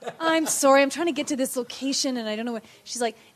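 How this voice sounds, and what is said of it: Usual voice. Nothing is said of it.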